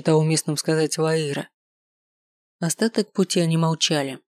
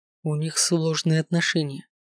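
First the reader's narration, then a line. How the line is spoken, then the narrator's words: Low-voiced remark. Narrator (Russian): заметил вполголоса Леонард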